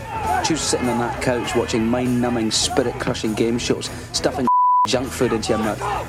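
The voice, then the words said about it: Thick East Coast Scottish accent. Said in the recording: “a very thick Scottish brogue there ... that's a East Coast accent ... Leith in Edinburgh ... a kind of strong, much stronger accent”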